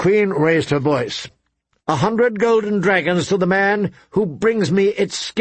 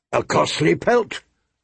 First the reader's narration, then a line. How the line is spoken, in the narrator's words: Robert grumbled